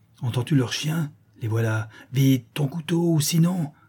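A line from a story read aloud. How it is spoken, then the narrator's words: Menacing exclamation. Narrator (French): s'écria la Chouette d'un air menaçant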